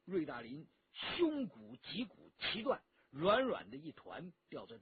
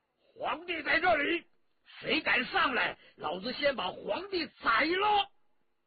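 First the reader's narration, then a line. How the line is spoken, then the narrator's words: Loud shout. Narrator (Chinese): 文泰来 高声喝道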